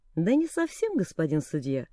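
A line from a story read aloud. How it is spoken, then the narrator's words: Calm. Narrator (Russian): спокойно промолвил Тек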